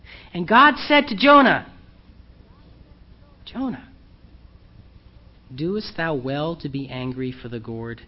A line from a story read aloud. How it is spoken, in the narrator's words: God gently challenges him again